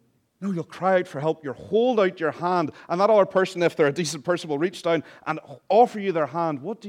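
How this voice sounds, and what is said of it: Usual voice. Nothing is said of it.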